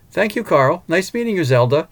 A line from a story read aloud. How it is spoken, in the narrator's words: said cheerfully